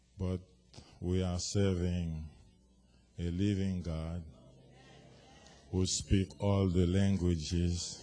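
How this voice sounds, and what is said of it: Haitian-accented English. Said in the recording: “from Port-au-Prince, Haiti, where we speak Creole and French ... with my accent, don't pay attention to it”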